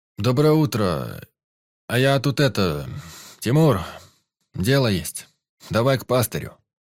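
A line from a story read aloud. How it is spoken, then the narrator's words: Deep bass voice. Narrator (Russian): пробасил Егорыч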